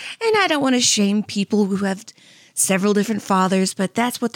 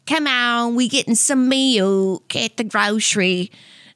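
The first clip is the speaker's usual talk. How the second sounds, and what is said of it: Put-on exaggerated Southern accent. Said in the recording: “their voice sound like they're like swallowing a pickle. You know, like that kind of Southern”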